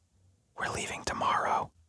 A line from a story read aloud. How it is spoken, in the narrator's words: suddenly Rita leans in very close to me and whispers